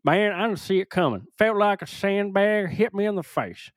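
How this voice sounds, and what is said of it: Stereotypical Florida accent. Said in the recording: “I'm just doing the stereotypical Florida accent, man.”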